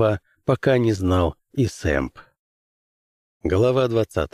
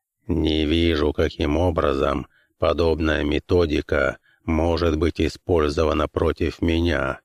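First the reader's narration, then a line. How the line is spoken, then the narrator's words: Grumbling. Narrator (Russian): пробурчал Глис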